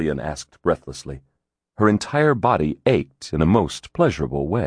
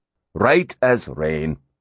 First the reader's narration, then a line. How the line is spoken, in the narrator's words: Hatcher replied dryly